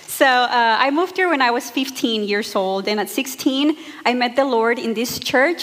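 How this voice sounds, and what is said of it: Mexican Spanish accent in English. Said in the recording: “I was born and raised in Monterrey, Mexico, as you can tell by my accent and mispronunciations of words”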